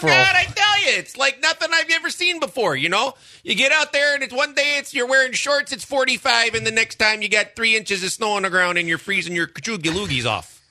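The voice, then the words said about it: Put-on Midwestern accent. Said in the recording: “if I hear that accent, I think of someone on a boat fishing ... There's two accents that you hear, and you immediately think, they're a dumbass. It's the Midwest and Southern.”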